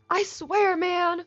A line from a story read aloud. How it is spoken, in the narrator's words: Seth cried